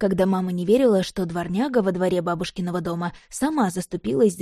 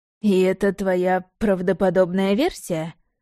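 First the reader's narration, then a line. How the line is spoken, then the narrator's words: Skeptical snort. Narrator (Russian): хмыкнул Яблонев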